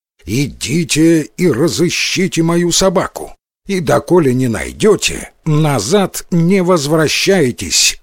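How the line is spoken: Loud command. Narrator (Russian): громко повелел он

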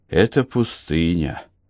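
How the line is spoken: Gloomy answer. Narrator (Russian): мрачно ответил Барак

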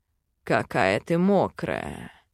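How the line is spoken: Growl. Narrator (Russian): прорычал

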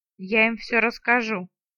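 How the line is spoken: Grim promise. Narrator (Russian): мрачно пообещала

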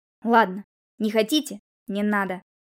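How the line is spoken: Sharp retort. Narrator (Russian): Резко откликнулся Елисей

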